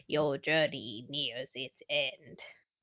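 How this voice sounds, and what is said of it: Impression of Palpatine's voice. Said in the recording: “That was a pretty good impression.”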